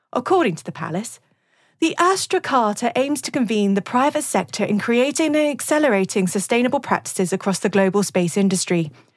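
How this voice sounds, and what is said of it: Put-on RP English accent. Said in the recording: “I'm from Mockney country, so I'll keep my accent a little more RP”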